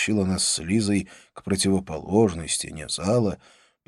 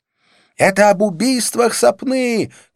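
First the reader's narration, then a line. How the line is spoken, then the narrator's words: Shouting close to ear. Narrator (Russian): крикнула Розанна, приблизив рот к моему уху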